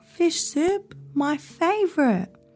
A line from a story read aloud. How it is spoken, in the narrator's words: Heron exclaimed